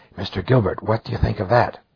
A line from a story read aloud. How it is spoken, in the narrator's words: She spoke in a loud whisper